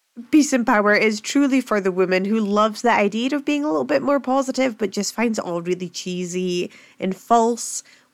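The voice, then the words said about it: Rough Scottish accent. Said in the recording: “my very rough Scottish accent”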